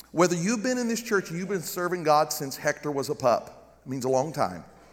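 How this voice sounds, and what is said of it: Southern US accent. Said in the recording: “I got this dumb Southern accent.”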